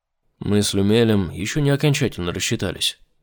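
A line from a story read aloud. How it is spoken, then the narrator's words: Dry remark. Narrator (Russian): сухо проговорил Айзек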